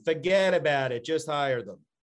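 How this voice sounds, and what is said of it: Put-on New York accent. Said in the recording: “you got to do it with a New York accent.”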